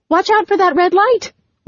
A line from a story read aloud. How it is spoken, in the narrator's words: Whitney gasped